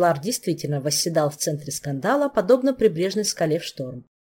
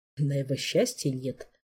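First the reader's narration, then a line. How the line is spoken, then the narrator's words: Low mutter. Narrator (Russian): полголоса пробормотал доктор Рельма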